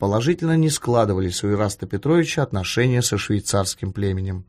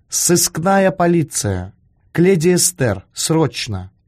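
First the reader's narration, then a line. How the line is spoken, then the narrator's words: Through teeth, vindictive. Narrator (Russian): процедил он, мстительно предвкушая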